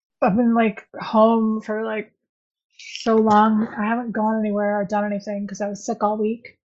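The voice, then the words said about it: Weird, sick-sounding voice. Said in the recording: “now I have this weird voice thing”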